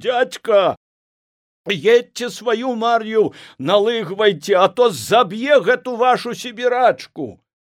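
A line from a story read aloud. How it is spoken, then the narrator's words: Young man shouting. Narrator (Belarusian): Малады толькі пасля арміі шафёр Колік Маталыцкі, стоячы на падножцы крыкнуў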